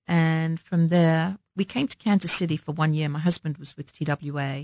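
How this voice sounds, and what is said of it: Slight London English accent. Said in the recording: “we've noticed your accent for those listening. ... A little bit's left, not too much. ... I grew up in London”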